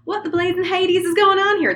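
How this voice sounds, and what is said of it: Put-on Southern accent. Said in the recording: “There's got to be a voice, though. This person is going to be Southern.”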